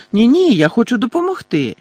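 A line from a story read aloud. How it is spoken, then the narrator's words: Joyful exclamation. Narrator (Ukrainian): радісно вигукнула Тонкс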